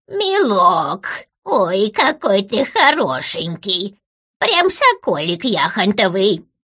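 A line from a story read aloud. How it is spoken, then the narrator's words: Creaky quavering voice. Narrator (Russian): Проскрипела дребезжащим голосом я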